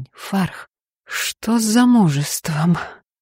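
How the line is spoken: Soft. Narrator (Russian): мягко

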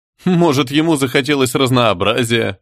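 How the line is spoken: Laughing. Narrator (Russian): рассмеялся оператор

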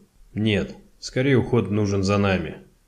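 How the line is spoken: Gloomy reply. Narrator (Russian): мрачно ответил Коппер

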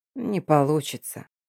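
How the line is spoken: Quiet, deliberately soft. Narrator (Russian): тихо и как-то нарочито мягко произнесла Хельват

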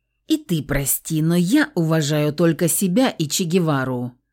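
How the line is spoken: Spiteful, through teeth. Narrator (Russian): процедил Евлантьев, надеясь задеть обидчика

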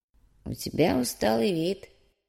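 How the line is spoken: Quiet old man. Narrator (Russian): негромко проговорил старик

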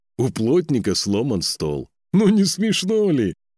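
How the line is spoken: Loud laughing male voice. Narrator (Russian): Сам он смеялся во весь голос

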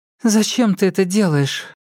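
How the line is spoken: Spoke up. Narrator (Russian): подала голос Лизетта

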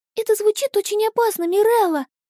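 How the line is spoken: Frightened meow. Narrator (Russian): Испуганно мяукнула

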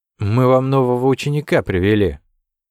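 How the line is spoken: Loud bird caw. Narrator (Russian): птица с синими крыльями и громко каркнула

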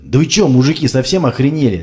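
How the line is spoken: Fearful scream. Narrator (Russian): завопил Олег, чуя приближение большой опасности для его собственного здоровья

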